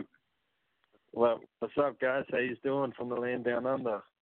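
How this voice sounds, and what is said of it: Australian accent. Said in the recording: “I love the accent... Living in Australia for so long, I guess you can't really pick up on your own accent”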